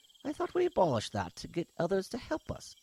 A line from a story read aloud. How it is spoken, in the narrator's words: Hisht spat in disdain